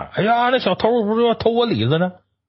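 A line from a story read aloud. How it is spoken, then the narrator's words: Shouting from behind. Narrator (Chinese): 在喊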